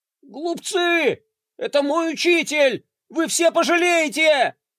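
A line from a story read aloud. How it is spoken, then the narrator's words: Shouting. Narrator (Russian): кричал он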